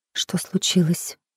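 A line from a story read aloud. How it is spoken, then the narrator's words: Whispered question. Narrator (Russian): спросила Джилл шепотом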